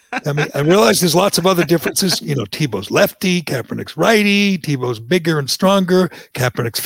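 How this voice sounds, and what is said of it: Usual voice. Nothing is said of it.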